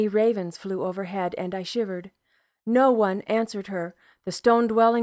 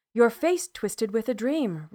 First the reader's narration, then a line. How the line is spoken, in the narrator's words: Rona said